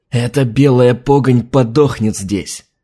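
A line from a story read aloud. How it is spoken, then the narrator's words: Spiteful, through teeth. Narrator (Russian): злобно процедил адмирал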